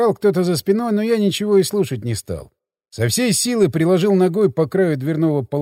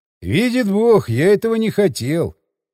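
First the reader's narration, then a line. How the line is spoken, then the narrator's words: Sigh. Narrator (Russian): вздохнул я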